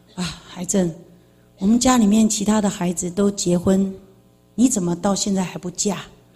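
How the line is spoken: Sighing father. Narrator (Chinese): 我爸爸又叹了一口气，跟我讲说

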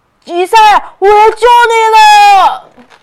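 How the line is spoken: Shouting. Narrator (Chinese): 欧奇大喊着

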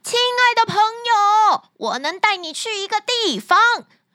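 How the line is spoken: Loud, muffled inside wolf. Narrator (Chinese): 他在狼的胃里大声地叫道

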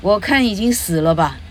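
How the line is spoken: Angry reply. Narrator (Chinese): Beatrice 很很恼怒的回答

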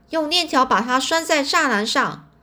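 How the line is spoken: Loud. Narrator (Chinese): 他大声说

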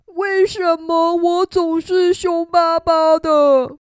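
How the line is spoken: Crying. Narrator (Chinese): 他哭着说

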